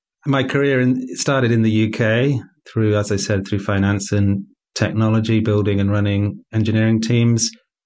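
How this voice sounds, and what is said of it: British English accent. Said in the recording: “your listeners will tell from my accent that I'm not Polish. I'm a Brit.”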